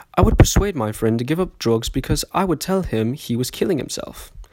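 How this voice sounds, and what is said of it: Put-on British accent. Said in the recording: “I will do this in the British accent as per usual”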